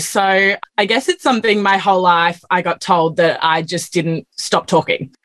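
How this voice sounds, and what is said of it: Australian accent. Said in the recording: “your Australian accent that everybody in the U.S. loves”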